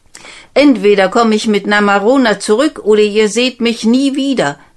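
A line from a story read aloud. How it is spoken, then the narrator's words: Called out. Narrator (German): rief er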